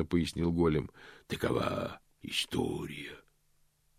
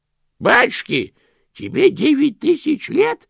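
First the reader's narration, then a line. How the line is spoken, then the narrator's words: Exclaiming. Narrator (Russian): воскликнул Грош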